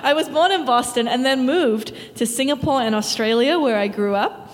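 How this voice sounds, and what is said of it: Boston accent. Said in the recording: “I was born in Boston, as you can hear from my accent.”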